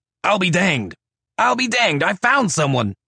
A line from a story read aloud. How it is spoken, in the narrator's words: Johnny McKeon came running from the brain room shouting